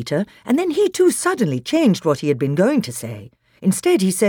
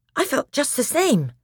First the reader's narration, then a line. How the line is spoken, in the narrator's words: said Edmund in a breathless voice